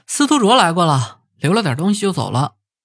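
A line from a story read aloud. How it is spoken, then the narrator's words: Cheerful laughing. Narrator (Chinese): 曹峰就笑呵呵地跟他们说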